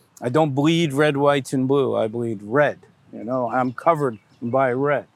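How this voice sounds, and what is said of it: American accent. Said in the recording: “I have an American accent. I'm stuck with it”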